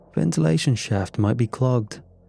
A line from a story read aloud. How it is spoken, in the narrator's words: I offered with a chuckle